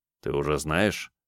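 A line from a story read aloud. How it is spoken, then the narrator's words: Low-voiced question. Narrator (Russian): вполголоса спросил Дертин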